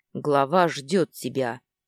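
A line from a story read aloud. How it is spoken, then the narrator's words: Short, deep bass. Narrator (Russian): пробасил коротко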